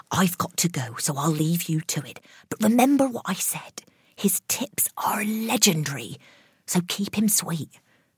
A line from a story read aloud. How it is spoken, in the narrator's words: whispered